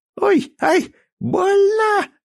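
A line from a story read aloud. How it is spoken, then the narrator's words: Woman screaming full volume. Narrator (Russian): завопила, что есть мочи женщина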